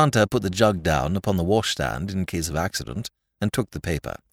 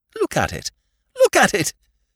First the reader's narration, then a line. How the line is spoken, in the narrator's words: said Whimsy, with a hysterical squeak of laughter